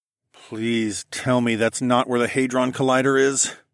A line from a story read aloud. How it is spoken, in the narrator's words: I groaned